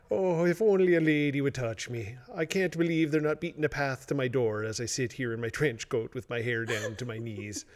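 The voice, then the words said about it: Put-on Irish accent. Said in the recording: “Where did the accent come from? ... I was Irish for a period of time.”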